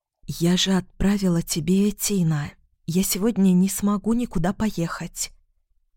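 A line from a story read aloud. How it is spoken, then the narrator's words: Near whisper. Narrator (Russian): почти шепотом сказала она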